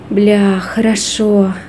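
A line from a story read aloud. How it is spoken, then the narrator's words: Exhaled words. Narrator (Russian): выдохнул Тони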